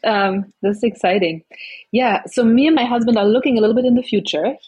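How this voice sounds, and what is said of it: Noticeable foreign-sounding accent. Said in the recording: “She's got a fantastic accent, even though she's from New York City.”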